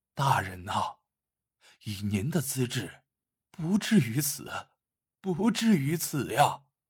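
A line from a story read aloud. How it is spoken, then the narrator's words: Dazed murmur. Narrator (Chinese): 贺满堂 嘴里喃喃道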